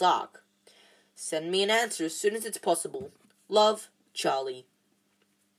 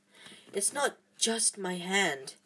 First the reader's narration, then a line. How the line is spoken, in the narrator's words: he whispered